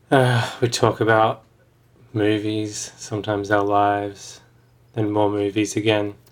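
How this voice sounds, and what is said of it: Flat, depressed-sounding delivery. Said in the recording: “do you sound so depressed”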